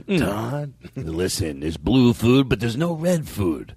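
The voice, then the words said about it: Imitates another person's voice, badly. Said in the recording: “my bad impression”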